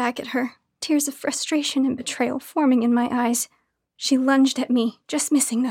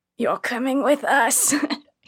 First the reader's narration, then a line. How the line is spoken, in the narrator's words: laughed